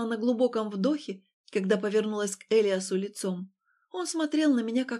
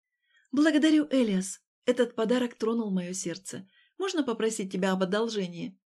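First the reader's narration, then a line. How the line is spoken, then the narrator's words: Soft and ingratiating. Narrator (Russian): говорила вкрадчиво и тихо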